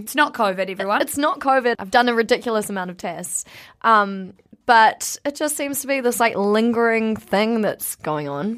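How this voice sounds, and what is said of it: Hoarse, partly lost voice. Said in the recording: “is missing one voice ... I am missing one voice or areas of my voice ... my voice isn't”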